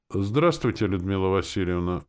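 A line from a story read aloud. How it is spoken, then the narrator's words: Calm. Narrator (Russian): спокойно отвечал Горохов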